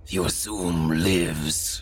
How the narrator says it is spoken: the thing grunted

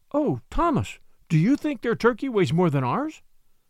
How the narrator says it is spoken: cried Submit

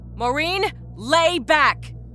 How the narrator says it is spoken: Rita shouted

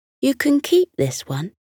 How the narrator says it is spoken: offered

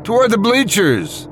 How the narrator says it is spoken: one man shouted excitedly

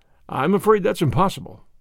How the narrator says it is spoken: replied

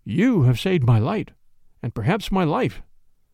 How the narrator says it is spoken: he said weakly

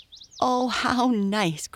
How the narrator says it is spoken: cried Mabel

